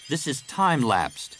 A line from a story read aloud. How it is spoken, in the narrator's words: he said